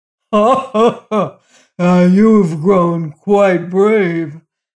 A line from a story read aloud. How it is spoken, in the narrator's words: laughed the giant mockingly